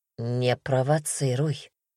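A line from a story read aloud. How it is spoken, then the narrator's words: Hoarse. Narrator (Russian): хрипло добавил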